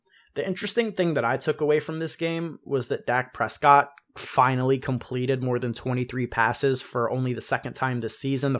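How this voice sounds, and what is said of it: Sick, unwell-sounding voice. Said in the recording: “I was sick this week. You can probably hear it in my voice.”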